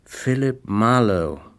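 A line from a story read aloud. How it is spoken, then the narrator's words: Slow. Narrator (German): sagte Terry langsam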